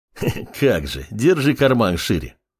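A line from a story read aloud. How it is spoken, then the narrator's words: Short laugh. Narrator (Russian): хохотнул Дариус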